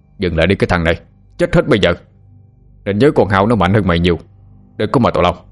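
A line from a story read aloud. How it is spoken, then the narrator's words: Loud shout. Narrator (Vietnamese): quát lớn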